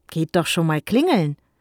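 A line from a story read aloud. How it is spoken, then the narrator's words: Father, forced cheerful urging. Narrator (German): forderte ihr Vater sie betont fröhlich auf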